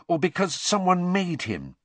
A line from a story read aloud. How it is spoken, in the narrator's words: said Hermione eagerly